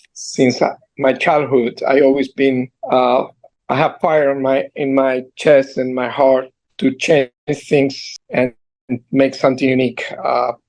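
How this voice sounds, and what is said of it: Heavy Argentine accent. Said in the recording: “I have a heavy accent because I am here for 40-something years, but I still have this accent. Originally from Argentina”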